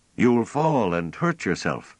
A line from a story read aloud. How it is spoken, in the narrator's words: Pellerat called out anxiously